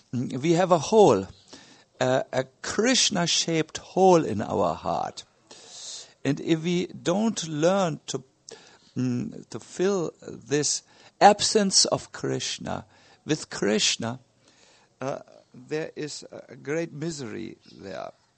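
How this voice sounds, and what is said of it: Heavy German accent. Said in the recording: “my heavy German accent”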